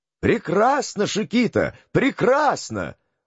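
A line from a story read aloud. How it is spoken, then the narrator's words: Shouting. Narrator (Russian): закричал Малартик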